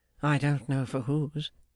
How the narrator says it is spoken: returned Arthur with a sigh and a smile

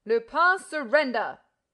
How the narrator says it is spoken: roared Ganimard

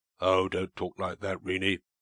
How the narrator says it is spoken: he cried, impetuously

